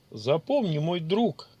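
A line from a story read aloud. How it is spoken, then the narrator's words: Amused snort. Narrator (Russian): хмыкнул маг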